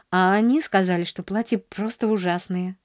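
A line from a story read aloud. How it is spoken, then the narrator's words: Sighed. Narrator (Russian): вздохнула она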